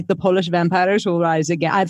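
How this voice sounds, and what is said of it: Attempted Polish accent, not convincing. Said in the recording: “That is not a Polish accent at all. I apologize. It's whatever that accent was, not Polish.”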